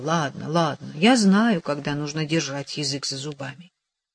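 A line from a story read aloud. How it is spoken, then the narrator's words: Humble mumble. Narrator (Russian): он смиренно пробормотал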